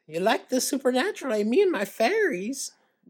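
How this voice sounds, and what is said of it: Old Irish lady voice. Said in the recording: “talking like an old Irish lady”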